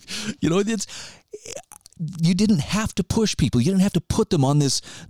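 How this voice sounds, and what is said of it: Usual voice. Nothing is said of it.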